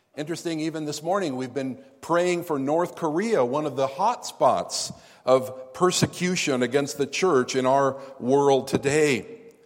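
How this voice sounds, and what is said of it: American accent. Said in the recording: “you can hear from my accent that I'm an American”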